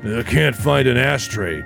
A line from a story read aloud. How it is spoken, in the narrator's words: Bill muttered